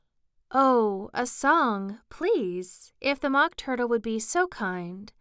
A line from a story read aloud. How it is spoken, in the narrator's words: Alice replied, so eagerly